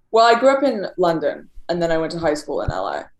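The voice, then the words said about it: Light British accent, Australian-sounding. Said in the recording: “you have an interesting accent. It's like, it's British light in a way ... A lot of people think I'm Australian ... it's like surfer British”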